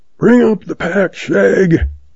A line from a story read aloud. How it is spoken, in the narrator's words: hollers